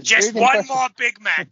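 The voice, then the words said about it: Columbo impression. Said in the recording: “Get old Columbo on this. Here's your impression.”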